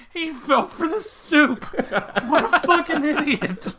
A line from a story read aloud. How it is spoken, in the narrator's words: someone just in tears laughing, screaming